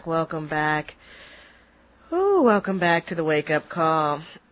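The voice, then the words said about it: Voice sounds funny from crying. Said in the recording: “my voice sounds a little bit funny, I have just been crying”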